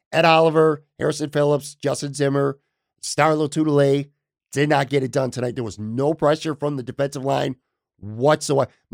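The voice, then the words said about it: Hoarse voice. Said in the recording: “My voice is getting hoarse. ... I'm still not completely over getting sick.”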